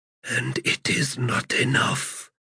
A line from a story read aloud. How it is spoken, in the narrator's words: Krughava whispered